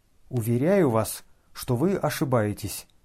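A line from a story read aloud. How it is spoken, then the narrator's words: Calm, polite. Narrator (Russian): спокойно и вежливо отвечал князь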